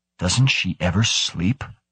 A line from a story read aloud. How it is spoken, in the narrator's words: Karlstad whispered